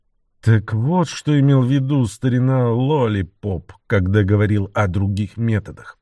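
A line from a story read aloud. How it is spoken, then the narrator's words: Grumbled. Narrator (Russian): буркнул он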